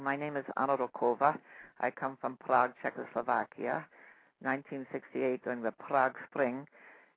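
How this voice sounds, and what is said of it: Czech accent of character Anna. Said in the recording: “I'll do a little of her accent for you.”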